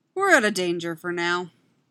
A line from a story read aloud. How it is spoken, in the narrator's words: the man says